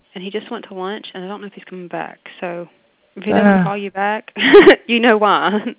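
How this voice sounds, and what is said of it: Noticeable regional accent. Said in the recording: “You have a great accent”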